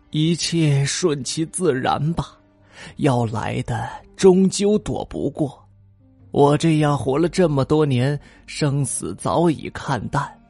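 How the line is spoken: Sighing old man. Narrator (Chinese): 老人叹了口气说

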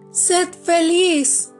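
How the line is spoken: Bird shouting. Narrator (Spanish): le gritó el ruiseñor

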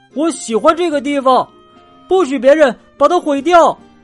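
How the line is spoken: Loud, trembling. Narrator (Chinese): 迪伦比平时颤抖的更厉害了，大声说

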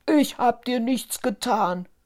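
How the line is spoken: Giant's growling shout. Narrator (German): rief der erste Riese knurrend

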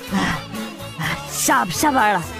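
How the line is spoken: Breathless. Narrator (Chinese): 我喘着气说

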